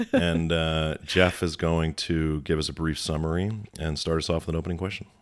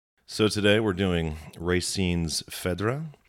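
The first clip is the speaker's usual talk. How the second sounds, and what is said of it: Put-on French accent. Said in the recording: “That's my best French accent that I can do right there.”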